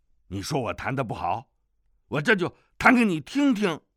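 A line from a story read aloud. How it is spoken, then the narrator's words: Angry. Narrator (Chinese): 康广陵怒道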